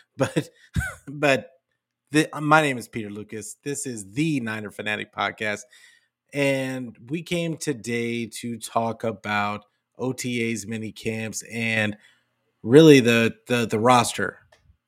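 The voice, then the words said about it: Slightly hoarse voice. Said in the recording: “my voice is a little hoarse because I've been yelling at kids for the last 4 days”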